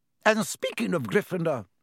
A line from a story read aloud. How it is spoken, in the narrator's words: Professor McGonagall said sharply